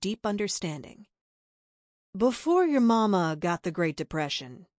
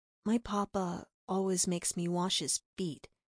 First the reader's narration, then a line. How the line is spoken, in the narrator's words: Bella whispered to Big Betty